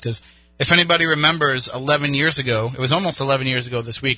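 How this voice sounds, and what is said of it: Hoarse, fading voice. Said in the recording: “I'm losing my voice a little bit”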